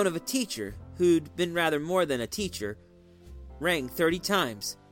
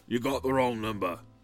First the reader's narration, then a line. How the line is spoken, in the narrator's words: a sleepy man who said gruffly